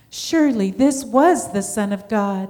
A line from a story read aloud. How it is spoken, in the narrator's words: he exclaimed